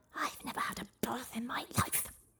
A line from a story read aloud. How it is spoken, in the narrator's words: hissed the dragon